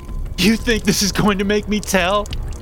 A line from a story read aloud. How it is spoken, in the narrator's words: Cooper shouts